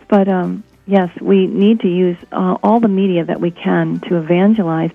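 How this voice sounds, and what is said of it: Hoarse, sick voice. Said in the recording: “pardon my voice, I'm getting over a long couple of week illness of a cold virus, so I'm so sorry about my voice”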